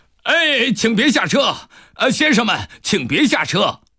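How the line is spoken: Conductor, urgent loud shouting. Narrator (Chinese): 车长赶紧跑过来，冲着他们大声地喊着

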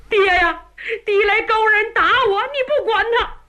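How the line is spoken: Crying. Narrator (Chinese): 红脸的哭了

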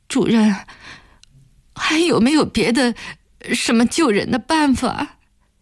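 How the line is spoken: Sobbing question. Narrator (Chinese): 暖暖抽泣着问

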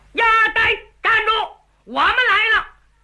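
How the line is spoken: Loud shout. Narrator (Chinese): 高喊

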